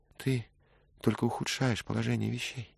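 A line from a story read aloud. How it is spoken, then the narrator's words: Sad. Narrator (Russian): печально проговорила Джоанна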